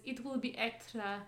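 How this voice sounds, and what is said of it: Put-on foreign accent. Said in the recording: “I don't know why I use that accent.”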